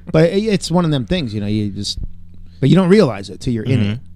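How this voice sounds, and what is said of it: New York accent. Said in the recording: “my New York starts coming out ... this New York accent”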